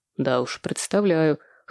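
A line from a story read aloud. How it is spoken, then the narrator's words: Scoffing snort. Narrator (Russian): хмыкнул Владимир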